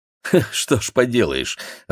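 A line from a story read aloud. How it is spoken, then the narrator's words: Laughing. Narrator (Russian): рассмеялся Игорь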